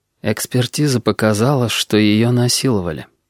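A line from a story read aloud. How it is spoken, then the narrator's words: Utterly flat voice. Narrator (Russian): ответила хозяйка абсолютно бесцветным голосом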